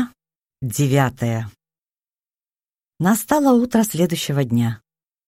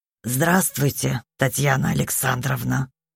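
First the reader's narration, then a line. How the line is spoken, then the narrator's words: Hoarse rasp. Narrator (Russian): прохрипел Юрий Яковлевич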